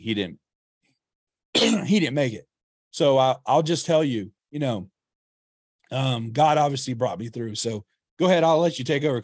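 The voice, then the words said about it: Hoarse, fading voice. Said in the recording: “my voice, I'm losing my voice”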